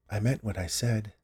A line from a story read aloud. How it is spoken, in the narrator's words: whispered